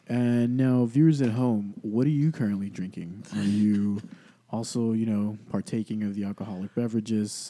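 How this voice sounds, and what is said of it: Smooth, suave radio-announcer voice. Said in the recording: “why do you have the NPR voice on ... It's very cool and suave”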